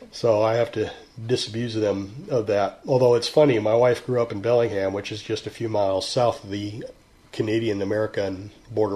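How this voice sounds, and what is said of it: Texan accent. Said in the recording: “you sound very Texan.”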